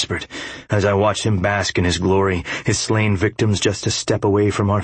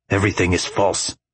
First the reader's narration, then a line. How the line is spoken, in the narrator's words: I said through gritted teeth